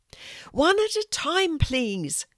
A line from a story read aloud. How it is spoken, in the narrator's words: Molly shouted, loud enough to make herself heard